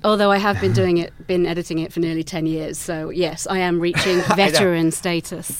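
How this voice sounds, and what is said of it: English accent. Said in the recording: “as you can tell from my accent, I'm English”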